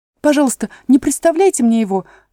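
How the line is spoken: Hurried exclamation. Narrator (Russian): торопливо воскликнула Алиса

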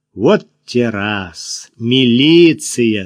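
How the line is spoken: Mocking drawl. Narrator (Russian): с издевкой протянула Кира

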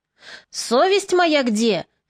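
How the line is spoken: Shouted. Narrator (Russian): кричал Морозко

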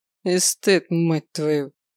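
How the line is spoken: Snorting. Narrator (Russian): фыркнул Климов

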